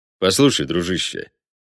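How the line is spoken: Calm. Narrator (Russian): также спокойно проговорил он

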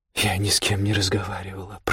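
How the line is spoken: Whispered. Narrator (Russian): прошептала Лотта

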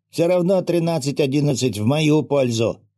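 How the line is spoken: Amused snort. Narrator (Russian): хмыкнул

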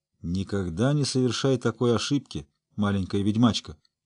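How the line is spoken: Gruff mutter. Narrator (Russian): буркнул

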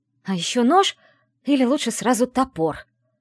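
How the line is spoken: Hiss. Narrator (Russian): прошипела я

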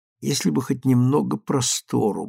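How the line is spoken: Muttering. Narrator (Russian): бормотал он

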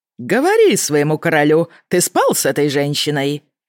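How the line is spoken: Cheerful question. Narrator (Russian): весело спросил Вайлен

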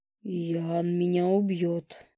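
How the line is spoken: Groaning fox. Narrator (Russian): простонал лис

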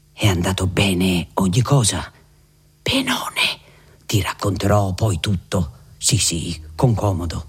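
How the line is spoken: Said under breath. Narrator (Italian): le disse sottovoce

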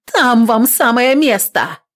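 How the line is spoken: Shouted after someone. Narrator (Russian): крикнула вдогонку

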